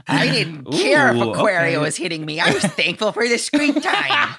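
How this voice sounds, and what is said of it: Imitates another person's voice. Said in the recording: “That's a good impression. ... I need to work on her.”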